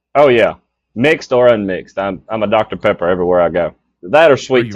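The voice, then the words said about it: Southern US accent. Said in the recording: “that is a Southern accent we do hear from Yard Envy ... another down southerner”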